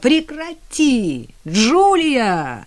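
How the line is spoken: Cheerful ringing shout. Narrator (Russian): Весело и звонко выкрикнул он

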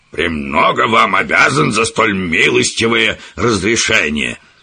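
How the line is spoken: Spiteful reply. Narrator (Russian): злобно ответил профессор

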